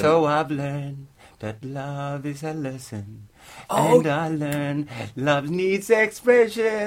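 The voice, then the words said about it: Poor imitation of a singer's voice. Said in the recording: “that is the worst Michael Jackson impression I've ever heard”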